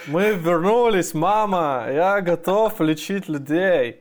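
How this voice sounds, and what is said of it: Put-on foreign accent. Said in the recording (Russian): “С акцентом”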